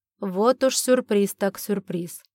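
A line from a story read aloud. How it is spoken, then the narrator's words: Cold. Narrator (Russian): холодно произнес он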